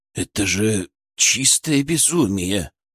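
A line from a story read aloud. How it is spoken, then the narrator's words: Whisper. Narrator (Russian): прошептал Рыбников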